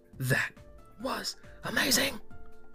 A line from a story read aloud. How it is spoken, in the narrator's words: Amber gasped